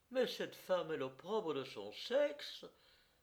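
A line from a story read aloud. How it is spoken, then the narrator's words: Angry exclamation. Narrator (French): s'écria Céleste, rouge de colère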